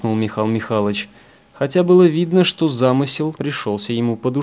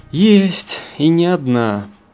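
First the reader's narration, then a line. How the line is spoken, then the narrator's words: Sighing. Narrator (Russian): вздохнул командир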